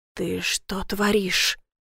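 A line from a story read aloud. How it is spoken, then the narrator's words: Hiss. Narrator (Russian): прошипел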